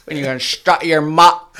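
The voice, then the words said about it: Put-on accent. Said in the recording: “You gotta do the Gadawaga accent though.”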